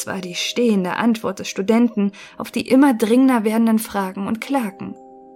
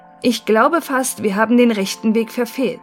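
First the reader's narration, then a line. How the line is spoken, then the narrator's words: Call after pause. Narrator (German): rief er nach einer Pause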